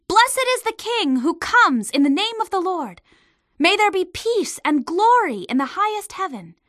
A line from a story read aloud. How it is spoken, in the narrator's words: They shouted